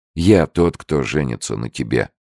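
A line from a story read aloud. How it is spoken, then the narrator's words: Firm voice. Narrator (Russian): твердым голосом сказал он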